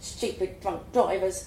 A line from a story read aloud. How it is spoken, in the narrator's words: the pumpkin muttered